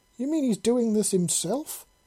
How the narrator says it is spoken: She exclaimed

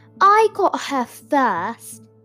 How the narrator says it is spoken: shouted Dennis

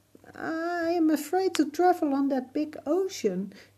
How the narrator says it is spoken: cried

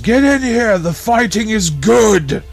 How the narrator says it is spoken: yells

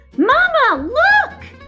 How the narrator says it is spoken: he squeaked as his feet left the ground

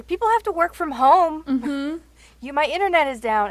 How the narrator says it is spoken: I yelled out the window

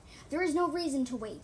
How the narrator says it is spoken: Singepaw yelled sharply, running through the storm of confused cats

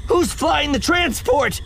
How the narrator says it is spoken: Ziri shouted

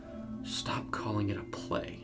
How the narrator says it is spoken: Keith muttered to himself, clenching his fists

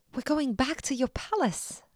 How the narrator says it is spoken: exclaimed

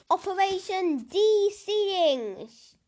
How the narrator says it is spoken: she yelled

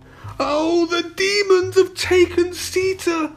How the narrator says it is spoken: moaned

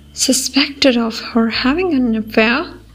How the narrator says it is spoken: Josh groaned

